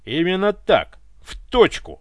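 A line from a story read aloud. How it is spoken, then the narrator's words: Triumphant bark. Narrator (Russian): победоносно рявкнул Иван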